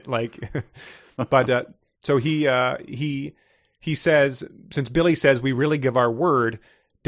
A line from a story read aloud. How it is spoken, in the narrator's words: David laughed and said